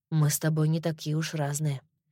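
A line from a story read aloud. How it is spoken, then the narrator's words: Soft. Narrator (Russian): мягко сказал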